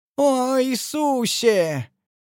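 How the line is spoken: Monstrous howl. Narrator (Russian): Чудовищно взвыл кто-то

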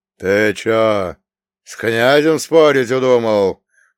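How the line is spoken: Old man's booming voice. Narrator (Russian): прогудел дед

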